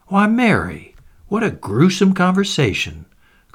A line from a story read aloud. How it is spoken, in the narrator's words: cried Mrs